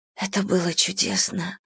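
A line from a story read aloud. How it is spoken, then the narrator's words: Whisper. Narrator (Russian): продолжает шептать она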